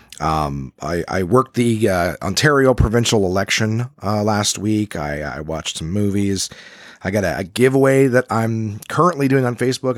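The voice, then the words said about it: Voice sounds sick, recovering. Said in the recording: “I've been sick. I'm certainly on the mend, but I'm still, I'm sure you can hear it in my voice still. I might be coughing a little bit”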